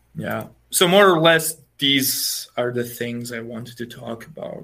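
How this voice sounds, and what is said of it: Slavic accent in English. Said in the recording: “love that accent ... more of a Slavic accent”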